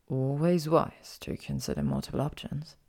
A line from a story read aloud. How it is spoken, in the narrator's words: he murmured